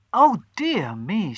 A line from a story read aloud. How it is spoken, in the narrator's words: she cried